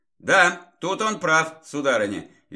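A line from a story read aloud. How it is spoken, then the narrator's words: Cheerful chuckle. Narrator (Russian): весело усмехнулся я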